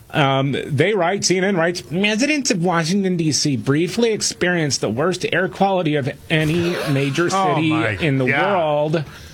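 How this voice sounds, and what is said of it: Whiny put-on character voice. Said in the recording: “in my whiny liberal voice.”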